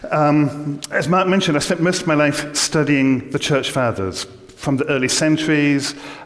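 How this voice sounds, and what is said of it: English accent. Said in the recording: “I've still got the English accent”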